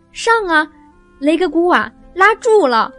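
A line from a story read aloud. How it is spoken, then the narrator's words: Cheering shout from below. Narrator (Chinese): 我们班上的兄弟在底下围成了一个圈儿，有一个喊道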